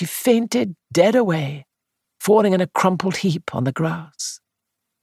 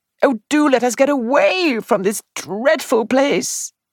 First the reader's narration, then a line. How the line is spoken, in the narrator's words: she wailed